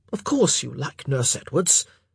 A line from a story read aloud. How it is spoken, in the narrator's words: Philip said impatiently